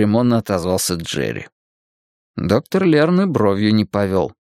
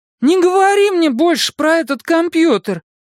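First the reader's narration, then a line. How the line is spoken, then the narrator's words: Sharp cry. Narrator (Russian): вскрикнула Дакота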